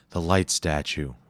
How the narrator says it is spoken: Ryu said under his breath

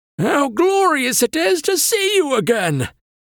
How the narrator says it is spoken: cried over the din

